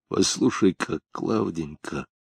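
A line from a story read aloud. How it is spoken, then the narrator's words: Whisper. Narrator (Russian): прошептал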